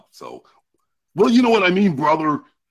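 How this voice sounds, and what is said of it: Imitates a wrestler's voice. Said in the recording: “imitating voices. Wrestlers. ... The Hulkster”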